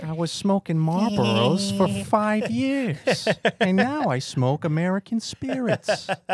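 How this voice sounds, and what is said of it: Family Guy cartoon character voice. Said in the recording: “Stewie. ... This is so much more fun than when you guys are talking in your normal voice. ... Family Guy”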